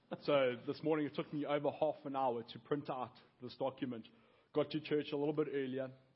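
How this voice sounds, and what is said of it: Speaks with a noticeable accent. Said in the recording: “acclimate your ear to my accent”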